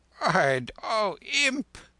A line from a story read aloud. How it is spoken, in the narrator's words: The Lama almost laughed aloud